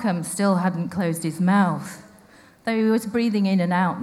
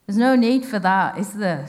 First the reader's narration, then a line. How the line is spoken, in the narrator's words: said Dad